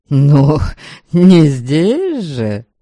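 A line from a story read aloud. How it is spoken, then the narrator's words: Wry snort. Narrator (Russian): Ваята хмыкнул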